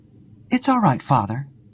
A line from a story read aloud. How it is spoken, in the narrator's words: she answered calmly